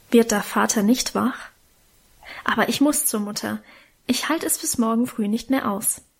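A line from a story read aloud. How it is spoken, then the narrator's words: Murmured low. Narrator (German): raunte er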